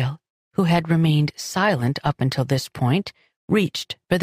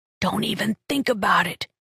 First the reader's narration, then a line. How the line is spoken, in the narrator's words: she hissed